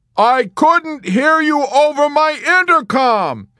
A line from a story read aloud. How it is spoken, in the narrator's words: Yossarian bellowed in mounting helplessness